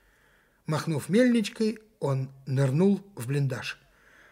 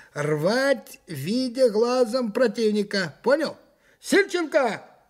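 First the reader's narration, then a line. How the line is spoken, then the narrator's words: Sudden shout. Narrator (Russian): крикнул он вдруг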